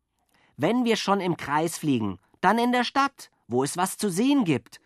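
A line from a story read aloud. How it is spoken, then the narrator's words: Calling out. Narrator (German): rief Jockel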